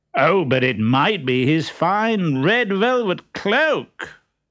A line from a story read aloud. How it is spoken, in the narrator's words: said Harlequin loudly